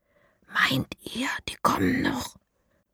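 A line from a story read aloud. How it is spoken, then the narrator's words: Whisper. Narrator (German): flüstert Lara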